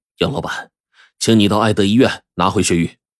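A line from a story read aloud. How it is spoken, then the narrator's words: Gloomy voice on phone. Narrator (Chinese): 杨老板接到狗秘书电话，声音阴沉着说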